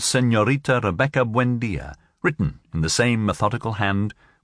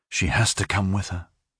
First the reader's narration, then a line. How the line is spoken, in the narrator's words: Aureliano would say to himself in a low voice